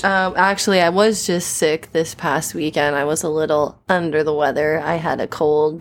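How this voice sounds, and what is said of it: Scratchy, tired voice from a cold. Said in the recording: “my voice sounds weird, it's because I've been coughing a lot ... My throat is a little tired. My voice is a little scratchy”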